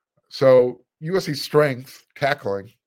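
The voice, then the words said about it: Sarcastic tone. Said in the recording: “sarcasm. I hope you heard that in my voice.”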